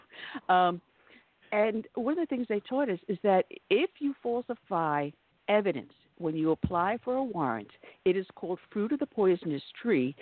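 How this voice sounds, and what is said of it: Native New York accent. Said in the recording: “as you can tell from my dialect, I am a native New Yorker.”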